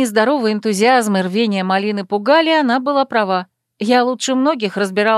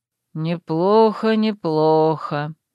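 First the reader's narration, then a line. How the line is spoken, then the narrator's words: Muttering under breath. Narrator (Russian): бормотал под нос Насиус Ларт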